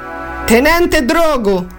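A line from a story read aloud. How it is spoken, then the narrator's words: Shouted self-introduction. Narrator (Italian): gridò Giovanni per presentarsi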